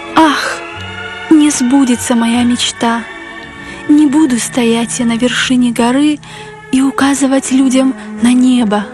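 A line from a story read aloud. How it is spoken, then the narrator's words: Heavy sigh. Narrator (Russian): тяжело вздохнуло третье дерево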